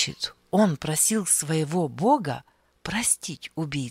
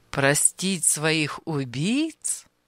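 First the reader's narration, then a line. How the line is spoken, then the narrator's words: Laughing. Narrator (Russian): Анисим рассмеялся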